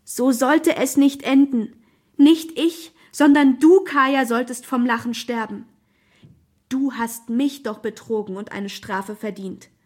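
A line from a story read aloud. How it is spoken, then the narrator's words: Desperate inner scream. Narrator (German): schrie die verzweifelte Lisa in Gedanken in ihren letzten Sekunden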